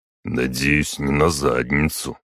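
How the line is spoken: Muttered. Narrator (Russian): пробормотал он

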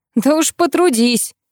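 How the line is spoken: Bark. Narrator (Russian): Рявкнул на меня он

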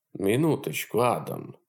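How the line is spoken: Surprisingly soft, old man. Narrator (Russian): удивительно мягко прервал его старик

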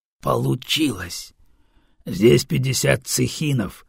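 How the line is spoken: Growled. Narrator (Russian): рыкнул правый

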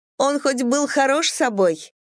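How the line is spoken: Laughing question. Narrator (Russian): она, смеясь, спросила

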